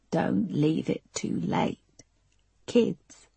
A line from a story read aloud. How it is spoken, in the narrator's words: Erica frustrated and croaked